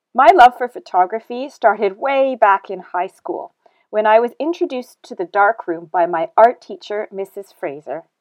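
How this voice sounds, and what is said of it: Canadian accent. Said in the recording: “as you can clearly hear from my accent, I'm not originally from here. I was born and raised in Canada”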